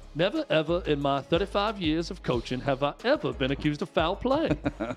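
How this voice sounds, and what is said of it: Imitates another person's voice. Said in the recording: “my Bobby Bowden impression ... That's not well ... very ... done.”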